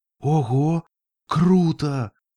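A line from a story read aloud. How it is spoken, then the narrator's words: Breathless exclamation. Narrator (Russian): выдохнула Рейнбоу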